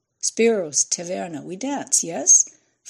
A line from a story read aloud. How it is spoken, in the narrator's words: Fran laughed